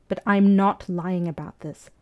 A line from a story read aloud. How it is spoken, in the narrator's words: Fraser said firmly